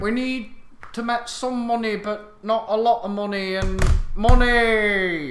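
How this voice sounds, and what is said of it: Poor imitation of another person's voice. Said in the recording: “do a shit Devo impression”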